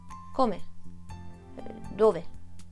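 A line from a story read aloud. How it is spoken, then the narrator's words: Stammering. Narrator (Italian): Il volto di Gigi Venanzi si scompose come uno smarrimento di vertigine e balbettò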